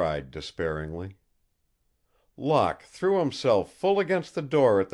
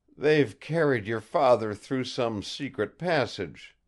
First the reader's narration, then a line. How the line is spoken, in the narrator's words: exclaimed Locke